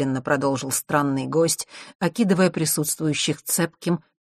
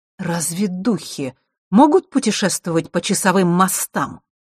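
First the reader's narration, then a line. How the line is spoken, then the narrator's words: Sharp question, queen. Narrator (Russian): резко спросила черная королева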